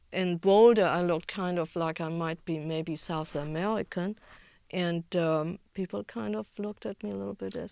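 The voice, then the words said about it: German accent. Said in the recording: “I'd never lost my German accent.”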